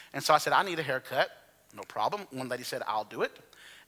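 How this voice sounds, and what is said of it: Alabama Southern accent. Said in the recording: “my Alabama accent became greatly, you know, she greatly was aware of that ... It's very, very different. And so she heard my accent”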